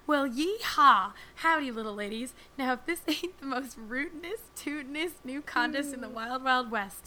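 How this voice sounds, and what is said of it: Stereotypical Southern US accent. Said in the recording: “please imagine the following email in a stereotypical southern accent”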